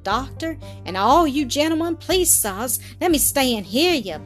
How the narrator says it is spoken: pleaded Zeb in an undertone of affright

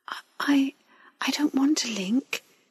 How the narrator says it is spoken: she said meekly

